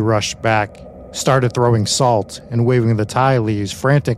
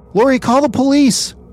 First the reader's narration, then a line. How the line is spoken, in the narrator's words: she screamed at the other daughter, not knowing what else to do